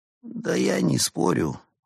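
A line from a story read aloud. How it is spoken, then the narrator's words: Glum, dejected. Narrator (Russian): уныло сказал Марио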